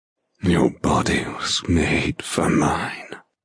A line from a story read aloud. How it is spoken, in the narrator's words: he rasps